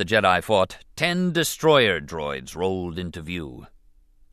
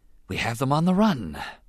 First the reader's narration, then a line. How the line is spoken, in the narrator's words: Rune Hakko breathed, scarcely able to believe their good fortune